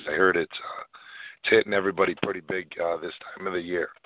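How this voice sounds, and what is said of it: Voice impaired, rough-sounding. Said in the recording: “I apologize for my voice. I've uh, got allergies.”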